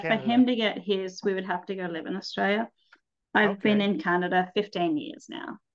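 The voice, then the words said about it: Strong Australian accent. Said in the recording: “Have not lost the Aussie accent. It is still very strong.”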